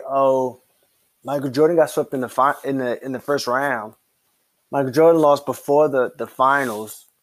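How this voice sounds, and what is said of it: Imitates another person's voice. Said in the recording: “Those are Bronnies, in case you can't understand the impersonation.”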